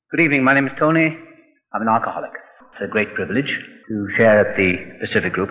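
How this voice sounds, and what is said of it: Distinct accent. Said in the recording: “He's got a pretty distinct accent.”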